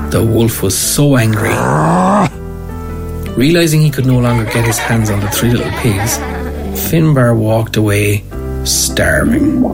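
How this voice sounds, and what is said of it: Cork Irish accent. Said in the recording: “if I'm narrating, let's use the Cork accent”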